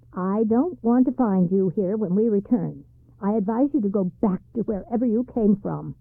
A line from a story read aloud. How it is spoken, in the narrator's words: said sharply